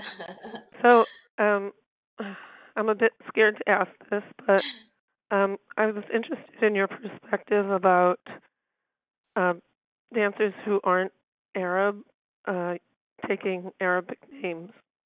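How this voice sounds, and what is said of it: Voice affected by illness. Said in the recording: “Sorry about my voice. ... Whatever is going on, going around in D.C. is also in California.”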